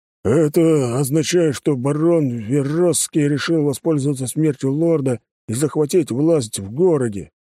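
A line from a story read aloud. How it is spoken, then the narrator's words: Deep bass voice. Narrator (Russian): пробасил командующий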